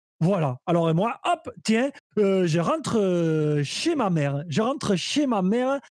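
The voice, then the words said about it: Put-on regional French accent. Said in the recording (French): “avec cet accent ... Mon accent, je l'ai toujours contrefait, ok Ça, c'est ma vraie voix.”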